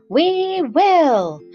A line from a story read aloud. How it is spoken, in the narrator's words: cried all the mice in a shrill chorus